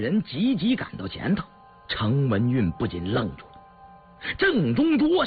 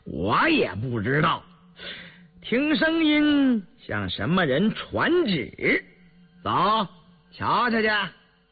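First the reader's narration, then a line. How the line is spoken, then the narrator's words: Laughing. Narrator (Chinese): 印里遂笑道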